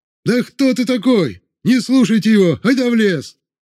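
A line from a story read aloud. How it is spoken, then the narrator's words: Troublemaker shouting. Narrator (Russian): вновь закричал какой-то смутьян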